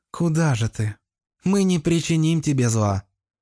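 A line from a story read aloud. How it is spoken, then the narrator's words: Tender maiden's voice. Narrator (Russian): Нежнейшим голосом произнесла дева с ангельским лицом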